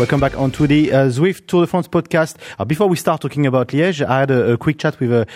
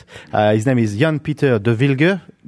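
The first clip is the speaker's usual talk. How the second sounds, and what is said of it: Put-on Belgian accent. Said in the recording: “my best impression of a Belgium accent. I don't know if I'm right or wrong.”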